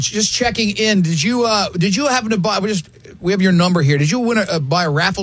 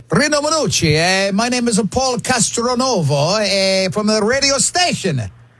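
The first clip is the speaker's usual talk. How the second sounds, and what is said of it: Cheesy put-on Italian accent. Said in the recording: “the cheesy Italian accent”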